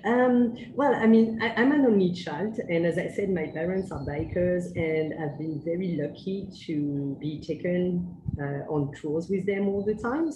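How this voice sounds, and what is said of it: French accent. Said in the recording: “Just from the accent... I'm indeed from France, from Paris.”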